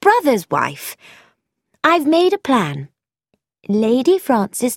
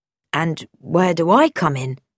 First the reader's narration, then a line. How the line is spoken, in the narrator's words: Bobby asked